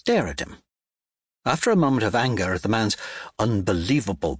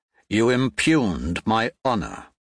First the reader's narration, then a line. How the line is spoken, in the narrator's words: he says